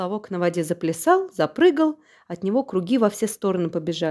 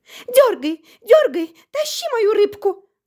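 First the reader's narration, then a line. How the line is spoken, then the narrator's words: Fox shouting. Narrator (Russian): закричала лиса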